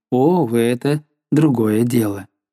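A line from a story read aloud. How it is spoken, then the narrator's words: Said calmly. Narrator (Russian): сказала спокойно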